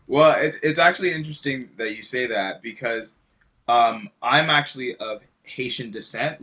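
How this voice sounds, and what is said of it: French accent. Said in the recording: “my French man ... that accent threw me for a loop”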